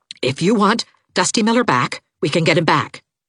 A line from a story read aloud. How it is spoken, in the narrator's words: said Aunt Kate desperately